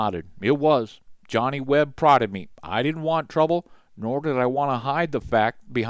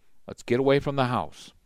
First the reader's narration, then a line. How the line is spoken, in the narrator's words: he said quietly